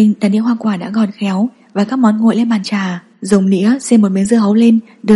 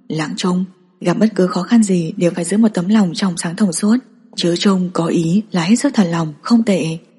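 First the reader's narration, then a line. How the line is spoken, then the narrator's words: Whisper. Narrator (Vietnamese): Bạch Tiến Vũ thì thầm nói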